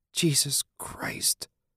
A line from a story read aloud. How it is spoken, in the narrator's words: Julie hissed